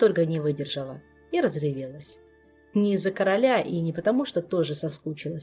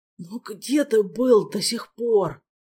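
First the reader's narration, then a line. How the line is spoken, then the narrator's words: Reproachful moan. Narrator (Russian): с упреком простонал Элмар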